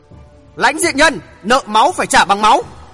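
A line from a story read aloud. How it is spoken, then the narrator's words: Sudden loud shout. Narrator (Vietnamese): đột nhiên có tiếng quát lớn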